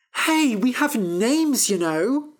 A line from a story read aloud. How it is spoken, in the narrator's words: cried Fennel